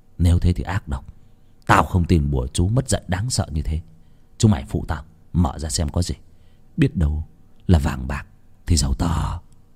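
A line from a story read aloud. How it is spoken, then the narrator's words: Skeptical muttering. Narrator (Vietnamese): Vốn không tin bùa ngải, Việt lẩm bẩm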